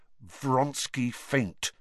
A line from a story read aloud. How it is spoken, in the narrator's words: said Harry through gritted teeth